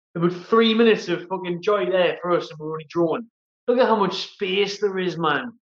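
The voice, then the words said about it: Geordie accent. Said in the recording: “I do love a Geordie accent.”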